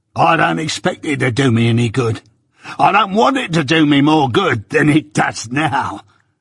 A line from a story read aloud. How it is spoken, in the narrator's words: said with a greedy laugh